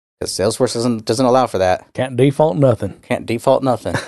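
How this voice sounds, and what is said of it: Put-on Southern US accent. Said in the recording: “There's your southern accent.”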